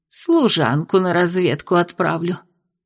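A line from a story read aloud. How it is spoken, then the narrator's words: Tired. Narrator (Russian): устало сказала она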